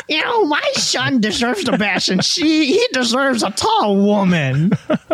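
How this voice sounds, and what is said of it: Angry mom character voice. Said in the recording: “your mom impression ... This is like an angry mom.”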